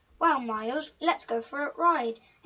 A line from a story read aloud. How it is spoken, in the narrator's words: exclaimed Galaxy